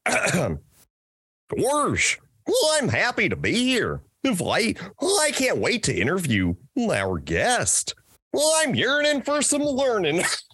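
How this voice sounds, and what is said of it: Goofy cartoon character voice. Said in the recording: “I'm going to do my goofy voice”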